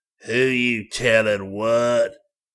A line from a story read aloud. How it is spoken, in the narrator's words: He snarled